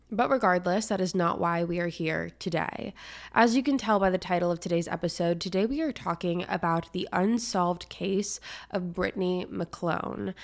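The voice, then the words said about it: Voice slightly off from a cold. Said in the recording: “I am getting over some sort of cold, some sort of sickness. So if my voice sounds a little off this week ... if there is a different tone in my voice, if you notice it sounds a little different, if I'm breathing different”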